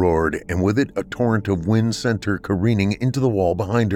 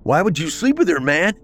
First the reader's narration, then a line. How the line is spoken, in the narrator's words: he yelled